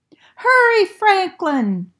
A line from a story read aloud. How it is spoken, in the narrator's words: shouted Bear